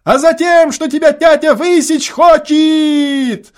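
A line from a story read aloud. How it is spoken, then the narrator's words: Hasty shout. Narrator (Russian): поспешно прокричал первый голос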